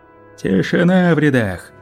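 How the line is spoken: Officer shouting. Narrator (Russian): закричал незнакомый офицер

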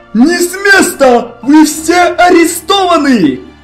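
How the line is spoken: Several guards shouting. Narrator (Russian): Закричали несколько гвардейцев

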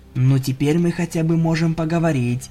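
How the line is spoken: Whisper. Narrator (Russian): прошептала в темноте Аврора

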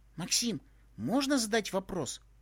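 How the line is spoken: Hesitant question. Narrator (Russian): неуверенно спросила Молли

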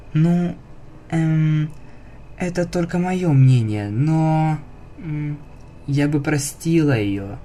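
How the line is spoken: Quiet confession. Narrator (Russian): тихо призналась

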